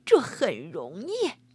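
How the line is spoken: Laughing old woman. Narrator (Chinese): 老婆子笑起来

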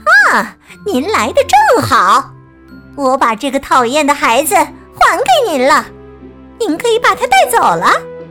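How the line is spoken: Witch speaking loudly. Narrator (Chinese): 女巫大声说

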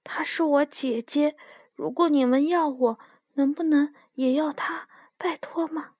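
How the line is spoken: Softly. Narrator (Chinese): 罗拉 小声地说

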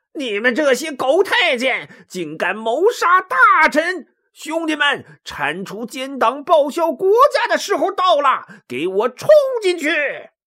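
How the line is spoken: Furious shout. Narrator (Chinese): 袁绍气得厉声高叫

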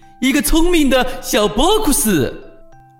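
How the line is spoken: Shouting. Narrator (Chinese): 波库斯叫喊起来

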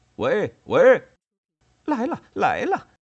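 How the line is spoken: Sudden loud shouting. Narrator (Chinese): 却突然大声嚷嚷起来

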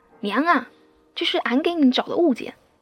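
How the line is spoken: Booming shout. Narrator (Chinese): 扯着大嗓门喊

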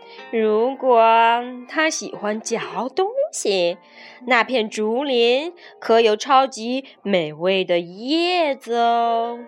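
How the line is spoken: Snake speaking softly. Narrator (Chinese): 蟒蛇低声说

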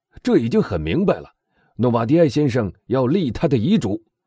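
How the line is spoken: Loud voice. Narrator (Chinese): 公证人大声说道

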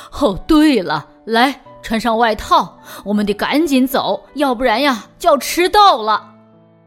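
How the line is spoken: Laughing mother. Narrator (Chinese): 妈妈也笑了起来，说

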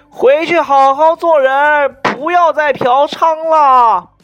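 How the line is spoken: Loud. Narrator (Chinese): 那个王八蛋很大声音的对我说

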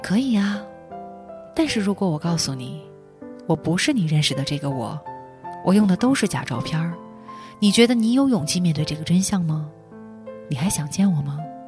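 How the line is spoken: Very soft sigh. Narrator (Chinese): 对方很轻很轻叹了一口气，说

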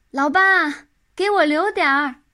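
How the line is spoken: Loud shout. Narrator (Chinese): 他大声一叫

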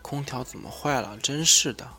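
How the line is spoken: Quiet muttering. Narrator (Chinese): 夏楚楚小声嘀咕

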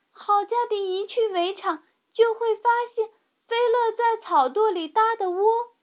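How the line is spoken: Shouting. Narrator (Chinese): 米莉叫道

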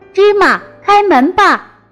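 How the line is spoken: Shouted. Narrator (Chinese): 他的喊声

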